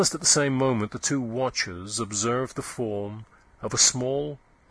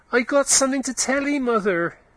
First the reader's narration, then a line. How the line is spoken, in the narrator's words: he cried in a shrill tone